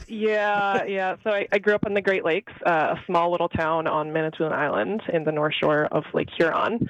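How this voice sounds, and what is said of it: Slight Canadian accent. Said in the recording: “some slight accent that everyone here makes fun of me for, I'm actually Canadian”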